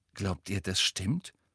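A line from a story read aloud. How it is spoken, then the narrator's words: Startled whisper. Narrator (German): flüsterte Hermine aufgeschreckt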